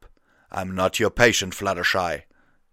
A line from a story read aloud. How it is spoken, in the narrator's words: snarled